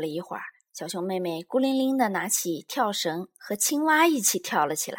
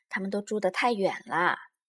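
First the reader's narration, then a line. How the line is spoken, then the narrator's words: Mother, sighing. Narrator (Chinese): 熊妈妈叹口气说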